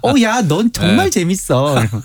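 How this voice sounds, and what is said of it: Imitates another person's voice. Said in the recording (Korean): “똑같아. ... 말투 아시죠?”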